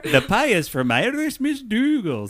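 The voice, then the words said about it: Attempted Irish accent. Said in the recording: “do our Irish accents ... here's my attempt to do the mom's accent”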